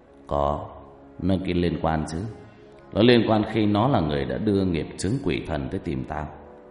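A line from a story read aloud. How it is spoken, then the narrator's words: Eerie chilling voice. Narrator (Vietnamese): Kiên Bạc nói bằng giọng rờn rợn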